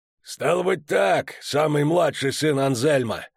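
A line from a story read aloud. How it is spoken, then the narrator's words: Hoarse rasp. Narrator (Russian): прохрипел он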